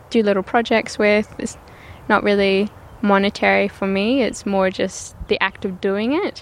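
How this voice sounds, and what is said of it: Scottish accent. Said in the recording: “You said your background is from Scotland ... you get your accent from your parents and family?”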